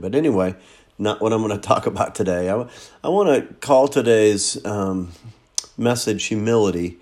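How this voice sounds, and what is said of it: Congested voice with a cold. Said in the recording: “As you can tell in my voice, I'm still kind of fighting some crud ... I think I got a cold”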